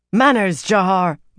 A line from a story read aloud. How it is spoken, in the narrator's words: Marie snapped